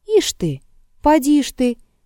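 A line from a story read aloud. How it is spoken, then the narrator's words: Cheerful shout. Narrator (Russian): весело крикнул Егорка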